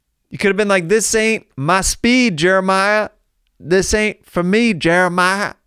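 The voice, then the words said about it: Put-on drawling accent. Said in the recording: “I don't know why I have an accent now”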